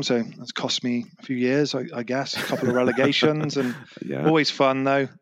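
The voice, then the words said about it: English accent. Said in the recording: “accent's probably given it away, but I'm from England”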